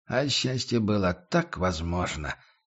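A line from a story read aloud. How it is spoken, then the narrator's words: Sighing mutter. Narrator (Russian): со вздохом пробормотал он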